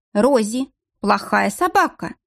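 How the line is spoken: Stern. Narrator (Russian): строго проговорила Надежда

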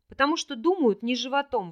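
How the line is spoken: Exclaiming. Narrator (Russian): воскликнул Рин

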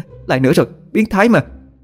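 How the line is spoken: Loud scream. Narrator (Vietnamese): Mỹ Kỳ che mặt hét toáng lên

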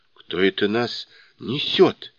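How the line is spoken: Frightened question. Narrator (Russian): испуганно спросили они

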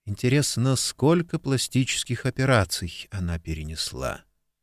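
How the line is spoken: Unaware muttering aloud. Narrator (Russian): Алекс, не замечая, что говорит вслух, пробормотала

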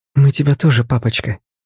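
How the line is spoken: Several voices whispering back. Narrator (Russian): прошептали они в ответ

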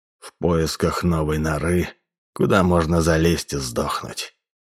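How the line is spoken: Sympathetic question. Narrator (Russian): Роше участливо спросил

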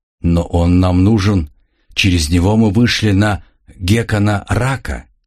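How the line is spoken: Plain. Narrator (Russian): сказал Росас

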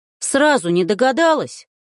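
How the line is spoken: Rude bark. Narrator (Russian): грубо рявкнул Захар

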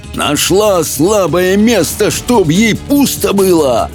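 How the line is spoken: Shouting. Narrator (Russian): прокричал он, проносясь по комнате

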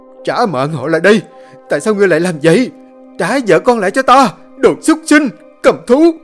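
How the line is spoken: Frenzied screaming. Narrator (Vietnamese): Thuần ôm đầu gào thét trong điên dại

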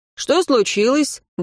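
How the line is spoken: Cheerful question. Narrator (Russian): бодро спросил он

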